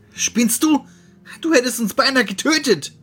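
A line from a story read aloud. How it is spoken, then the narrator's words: Angry shout. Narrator (German): schrie er wütend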